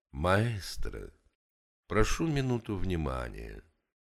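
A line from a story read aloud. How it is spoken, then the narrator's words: Quiet address. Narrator (Russian): негромко обратился сосед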